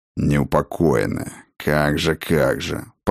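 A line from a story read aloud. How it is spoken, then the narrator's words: Grumbled. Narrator (Russian): проворчал Сфайрат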